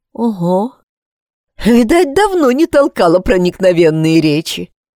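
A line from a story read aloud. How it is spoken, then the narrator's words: Awkward laugh. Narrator (Russian): Она неловко рассмеялась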